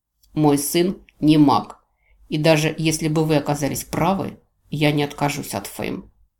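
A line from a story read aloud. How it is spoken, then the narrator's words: Curt, clipped. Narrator (Russian): отрывисто бросил он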